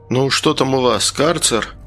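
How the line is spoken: Grumbling. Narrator (Russian): бурчал я

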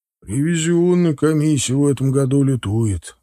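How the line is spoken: Sighing. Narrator (Russian): вздохнул Олегович

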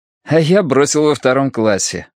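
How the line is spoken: Laughing. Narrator (Russian): посмеялся Саласкин

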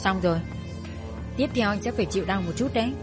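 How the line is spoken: Soft sigh, woman speaking. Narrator (Vietnamese): Khẽ thở nhẹ một cái, cô ta nói

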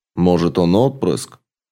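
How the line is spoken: Interrogating tone. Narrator (Russian): продолжал допросным тоном Энтемариус

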